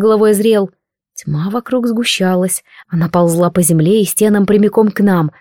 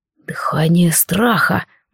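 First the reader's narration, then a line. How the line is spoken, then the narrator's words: Muttered. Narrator (Russian): пробормотал Эзриэл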